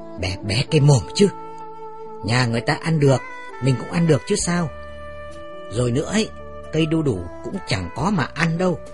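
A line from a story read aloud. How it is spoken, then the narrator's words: Hissed through teeth, low. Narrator (Vietnamese): Mẹ rít răng nói khẽ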